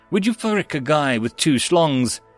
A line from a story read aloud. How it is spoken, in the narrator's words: She laughed, shaking her head